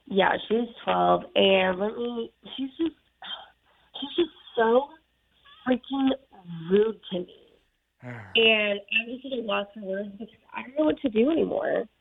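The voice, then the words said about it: Sad, small-sounding voice. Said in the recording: “you sound so sad. ... You sound so little.”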